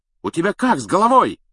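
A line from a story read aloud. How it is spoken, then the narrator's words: Loud wail. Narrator (Russian): завопил Стэн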